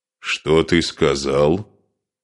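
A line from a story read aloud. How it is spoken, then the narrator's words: Grim, threatening. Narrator (Russian): Мрачно, с угрозой произнес Асмунд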